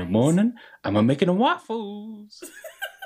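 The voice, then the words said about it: Cartoon donkey character voice. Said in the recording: “his donkey one from Shrek”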